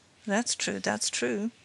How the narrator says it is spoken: muttered the magistrate, who was obviously interested

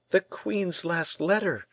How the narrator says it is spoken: cried Perronnette, without showing more astonishment than at seeing this letter at the bottom of the well

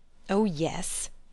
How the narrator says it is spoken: he grumbled

